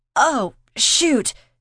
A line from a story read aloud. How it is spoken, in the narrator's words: she yelped